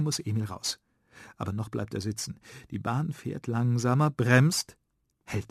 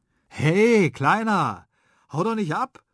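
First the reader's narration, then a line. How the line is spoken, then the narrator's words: Someone calling after him. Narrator (German): ruft jemand hinter ihm her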